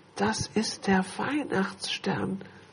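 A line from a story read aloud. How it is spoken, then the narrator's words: Awed whisper. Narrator (German): flüsterte Lilly ehrfurchtsvoll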